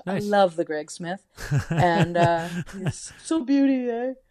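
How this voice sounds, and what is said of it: Good impression of Canadian rock bassist. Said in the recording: “That was a good impression of him. We're just, you and I are just imitating bass players from Canrock, underground Canrock bands.”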